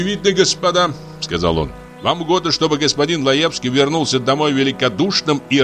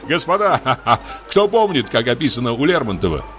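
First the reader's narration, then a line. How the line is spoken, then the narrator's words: Laughing question. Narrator (Russian): спросил фон Корн, смеясь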